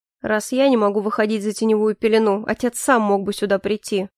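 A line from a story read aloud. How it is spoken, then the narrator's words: Cold reply. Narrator (Russian): холодно отозвался Калипсо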